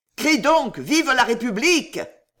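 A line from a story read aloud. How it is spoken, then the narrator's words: Yelled. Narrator (French): hurla-t-il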